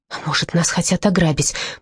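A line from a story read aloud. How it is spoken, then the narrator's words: Whisper in ear. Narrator (Russian): прошептала я на ухо Ирен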